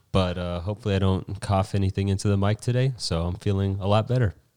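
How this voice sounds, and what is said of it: Slightly nasal, congested voice. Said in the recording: “I just got over a sickness. I feel like my voice is a little nasally”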